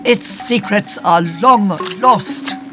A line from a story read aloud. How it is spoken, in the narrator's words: shouts Nailok